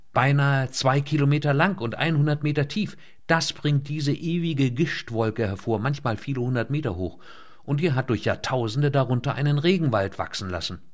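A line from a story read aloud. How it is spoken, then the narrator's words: Calling out. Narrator (German): rief Leinet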